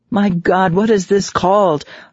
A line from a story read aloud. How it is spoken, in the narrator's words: I cried